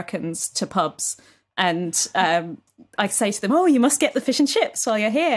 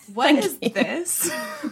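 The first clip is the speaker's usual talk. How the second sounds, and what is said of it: Put-on Californian American accent. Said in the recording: “You did a really good California accent there.”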